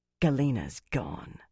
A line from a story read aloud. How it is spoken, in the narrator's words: Fael said bitterly